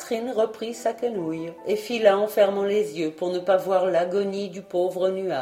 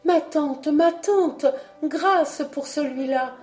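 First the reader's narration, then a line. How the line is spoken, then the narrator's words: Exclaimed. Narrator (French): s'écria Catherine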